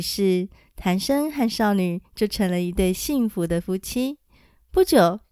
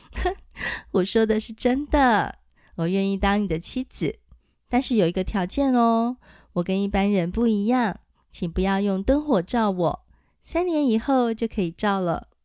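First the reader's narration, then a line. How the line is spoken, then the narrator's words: Laughing amused young woman. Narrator (Chinese): 少女被他的动作逗得笑了起来，她笑说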